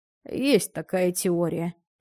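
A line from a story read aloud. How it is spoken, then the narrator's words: Sighed. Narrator (Russian): вздохнул доктор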